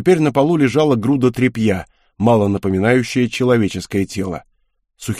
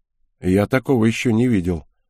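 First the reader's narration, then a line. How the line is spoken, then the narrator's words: Dry reply. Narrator (Russian): сухо ответил Марк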